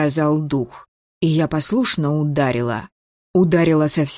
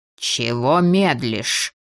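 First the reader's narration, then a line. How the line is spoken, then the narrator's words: Angry hiss near ear. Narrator (Russian): Зло зашипели чуть ли не на ухо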